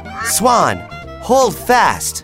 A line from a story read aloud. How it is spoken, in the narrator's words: Peter yelled